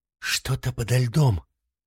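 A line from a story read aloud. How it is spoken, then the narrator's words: Quiet reply. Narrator (Russian): так же тихо ответила жена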